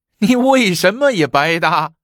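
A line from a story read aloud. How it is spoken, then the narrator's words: Laughing. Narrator (Chinese): 那管家笑起来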